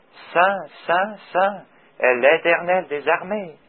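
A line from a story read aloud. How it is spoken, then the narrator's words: Very soft speech. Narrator (French): ils doivent l'avoir dit très doucement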